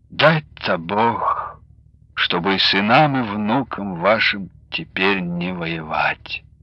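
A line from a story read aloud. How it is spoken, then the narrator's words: Said quietly. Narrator (Russian): Анастасия тихо сказала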